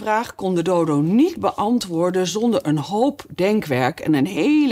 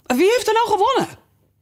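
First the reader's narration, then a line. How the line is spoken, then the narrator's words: Breathless group questioning. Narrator (Dutch): allemaal hijgend vroegen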